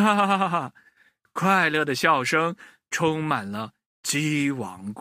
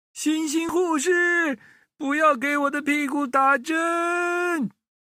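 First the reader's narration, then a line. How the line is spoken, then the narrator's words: Playful pretend shout. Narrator (Chinese): 一只小鸡啊……假装的喊着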